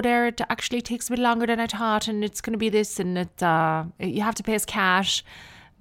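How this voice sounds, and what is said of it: Put-on Irish accent. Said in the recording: “I did an Irish accent”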